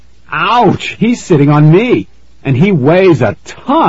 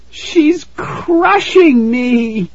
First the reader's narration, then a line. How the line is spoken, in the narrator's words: Tara wailed